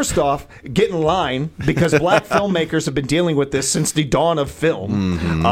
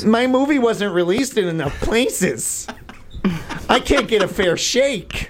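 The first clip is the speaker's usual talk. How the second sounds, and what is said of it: Imitates another person's voice. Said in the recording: “Very good impression”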